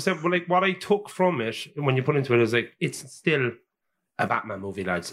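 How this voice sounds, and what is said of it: Cork Irish accent. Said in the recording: “that's a Cork accent, is it?”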